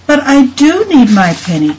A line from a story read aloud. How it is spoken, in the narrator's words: cried the boy